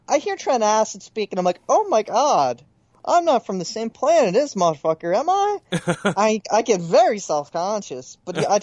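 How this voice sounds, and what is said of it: Moderate Philadelphia accent. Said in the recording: “My Philadelphia accent is somewhere in between full and, like, you can hear it, but it's not ... It's way less thick”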